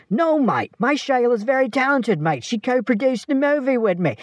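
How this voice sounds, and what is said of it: Put-on, unconvincing Australian accent. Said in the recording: “I never said I could do an Australian accent.”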